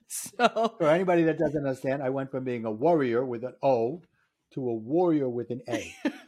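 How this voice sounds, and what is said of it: Brooklyn accent. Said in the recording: “and you have a ... Brooklyn accent”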